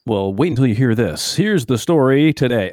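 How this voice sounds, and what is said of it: News anchor voice. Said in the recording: “That's my best news voice.”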